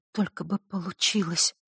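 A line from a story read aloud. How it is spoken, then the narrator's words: Whispering to herself. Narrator (Russian): шептала она про себя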